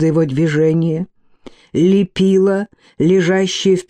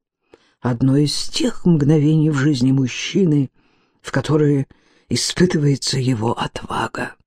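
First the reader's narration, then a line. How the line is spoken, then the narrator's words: To himself, deep sigh. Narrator (Russian): сказал он себе, глубоко вздохнув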